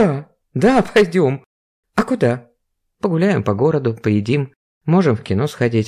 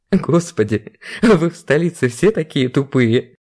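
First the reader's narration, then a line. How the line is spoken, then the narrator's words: Bursting into laughter. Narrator (Russian): Расхохотался он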